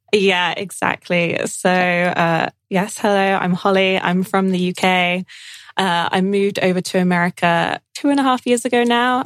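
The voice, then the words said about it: British accent. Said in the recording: “You have this British accent, so you are from the UK”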